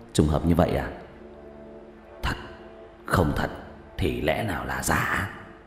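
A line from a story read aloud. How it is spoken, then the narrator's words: Sudden realization, muttering. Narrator (Vietnamese): Diệp Thiếu Dương đột nhiên nghĩ đến điều gì đó, lẩm bẩm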